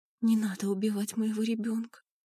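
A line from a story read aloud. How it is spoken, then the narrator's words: Whispered. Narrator (Russian): прошептала она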